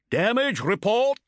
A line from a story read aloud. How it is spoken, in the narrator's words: shouted Motep above the din of the bridge